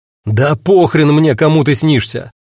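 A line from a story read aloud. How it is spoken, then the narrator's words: Barking. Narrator (Russian): рявкнул я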